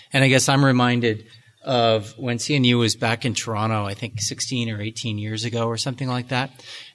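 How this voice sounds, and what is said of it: Canadian accent. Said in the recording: “I hear your Canadian accent coming through.”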